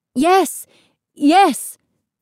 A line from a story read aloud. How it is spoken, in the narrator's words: they cried